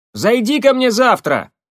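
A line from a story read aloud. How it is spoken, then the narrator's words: Shouted after someone. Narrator (Russian): крикнула ему вдогонку Пожарская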